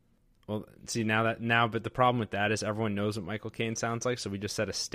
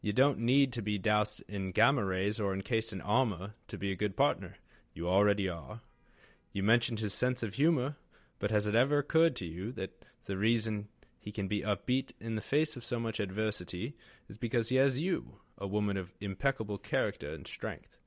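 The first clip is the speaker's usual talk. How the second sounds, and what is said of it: British butler character voice. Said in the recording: “He's British, I assume, right? ... Because he's a butler? ... I'm just going to do my own interpretation of Jarvis.”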